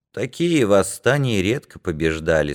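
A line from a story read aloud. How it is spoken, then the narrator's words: Plain. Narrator (Russian): сказал Глеб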